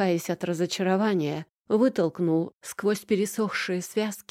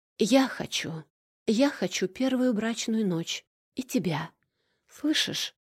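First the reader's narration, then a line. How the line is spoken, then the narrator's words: Eerie whisper. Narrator (Russian): Снова этот шепот, выдирающий куски из пространства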